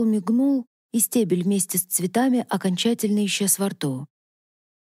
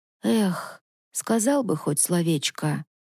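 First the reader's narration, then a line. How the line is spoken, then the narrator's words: Sigh. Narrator (Russian): вздохнула Мавна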